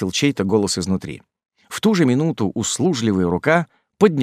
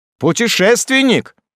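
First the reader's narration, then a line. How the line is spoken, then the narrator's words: Shout. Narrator (Russian): Ординер закричав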